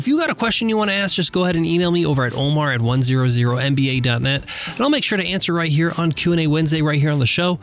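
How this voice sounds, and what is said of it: Nasal voice from a cold. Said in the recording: “my voice is a little bit off. I've been under the weather for the last few days ... maybe a bit of a nasally sound today”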